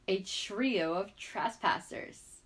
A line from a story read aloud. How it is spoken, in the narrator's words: Benzai sneered